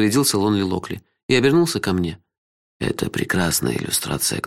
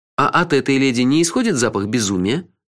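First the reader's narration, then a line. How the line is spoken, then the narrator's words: Snide question. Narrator (Russian): ехидно поинтересовался я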